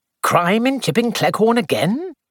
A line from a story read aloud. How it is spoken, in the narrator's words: He said cheerfully